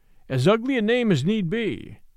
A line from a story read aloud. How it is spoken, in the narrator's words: Betteredge answered gruffly